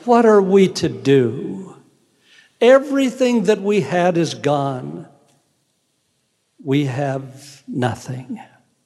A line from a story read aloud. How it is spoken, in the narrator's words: she cried